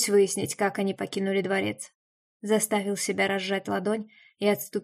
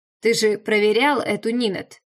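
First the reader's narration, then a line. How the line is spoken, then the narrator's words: Angry growl. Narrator (Russian): Зло рыкнул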